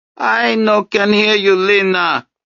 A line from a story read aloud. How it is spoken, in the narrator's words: Desdemona shouted despite her lung problems